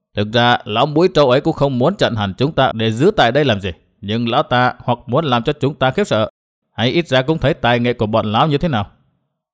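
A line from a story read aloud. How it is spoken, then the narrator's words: Muttering. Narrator (Vietnamese): Tông Đào lẩm bẩm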